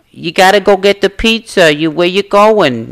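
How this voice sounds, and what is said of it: Thick Brooklyn accent impression. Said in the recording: “My grandmother has the thickest accent ... She has a classic Brooklyn ... she has the thickest accent ... with that New York attitude”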